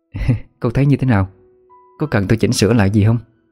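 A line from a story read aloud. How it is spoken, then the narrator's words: Smiling question. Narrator (Vietnamese): mỉm cười hỏi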